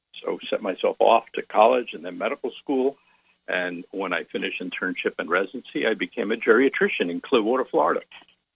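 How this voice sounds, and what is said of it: New York accent. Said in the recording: “I thought I caught some of a New York accent like me.”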